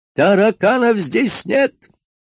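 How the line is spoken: Yelling from another room. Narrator (Russian): завопил из кабинета доктор

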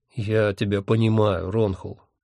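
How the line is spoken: Gentle. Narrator (Russian): мягко сказал Хехельф

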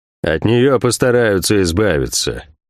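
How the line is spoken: Gloomy. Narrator (Russian): мрачно произнес Кивилл де Монтак

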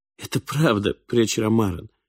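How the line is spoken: Trembling voice. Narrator (Russian): дрожащим голосом произнес Ори

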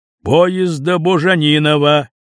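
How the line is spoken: Booming echoing station announcement. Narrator (Russian): рявкнуло под стеклянными сводами вокзала

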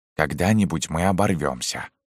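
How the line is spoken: Quiet, old man. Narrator (Russian): сказал тихо седой техник

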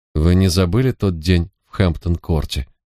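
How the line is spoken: More relaxed tone. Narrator (Russian): поинтересовалась она уже более непринужденным тоном

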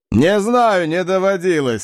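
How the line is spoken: Loud laughter. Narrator (Russian): расхохотался Удба

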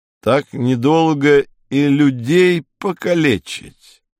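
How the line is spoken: Angry mutter. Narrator (Russian): сердито пробормотал курортник-наркоман

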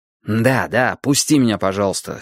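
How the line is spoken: Angry. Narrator (Russian): сердито сказал я

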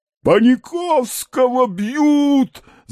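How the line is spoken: Shouting. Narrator (Russian): закричал Балаганов

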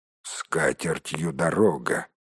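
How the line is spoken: Dwarf grumbling. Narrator (Russian): проворчал кто-то из гномов

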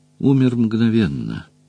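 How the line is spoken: Soft comment. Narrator (Russian): мягко прокомментировал оплот

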